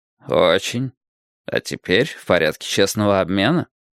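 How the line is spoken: Chuckling. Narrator (Russian): Уордл хохотнул

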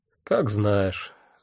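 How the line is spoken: Sighing. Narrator (Russian): вздохнул я

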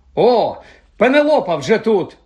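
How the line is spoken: Exclamation. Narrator (Ukrainian): вигукнув Персі

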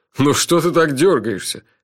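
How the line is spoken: Laughing. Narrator (Russian): рассмеялся Джуфин

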